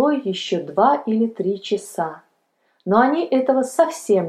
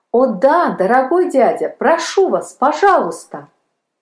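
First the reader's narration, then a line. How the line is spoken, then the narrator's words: Joyful exclamation. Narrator (Russian): воскликнул Палка радостно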